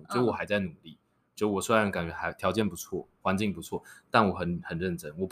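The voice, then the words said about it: Sincere, gentle soft voice. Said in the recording (Chinese): “我会用一个很诚恳、很温柔的声音说”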